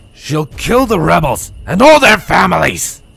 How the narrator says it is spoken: Charged cried out

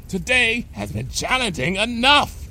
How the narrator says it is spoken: Bon Bon cried, redoubling her efforts to shove Lyra's behind through the window

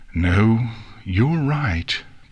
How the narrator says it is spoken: Princess Celestia said in a solemn tone

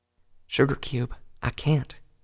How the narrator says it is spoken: Applejack answered softly

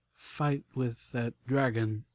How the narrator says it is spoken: The merchant slowly mouthed

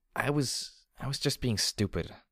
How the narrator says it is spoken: I muttered

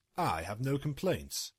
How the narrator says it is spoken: Hammer said

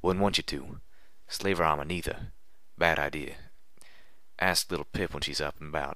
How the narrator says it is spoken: Calamity whispered firmly

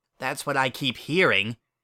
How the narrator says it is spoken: I grumbled under my breath

